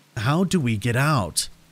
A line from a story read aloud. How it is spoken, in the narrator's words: asked him with a pleading tone in my voice